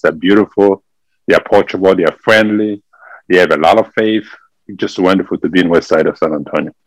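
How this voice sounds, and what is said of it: French-accented English. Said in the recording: “from the Democratic Republic of Congo, from Africa ... we speak French over there. That's why you can hear from my accent. I speak French.”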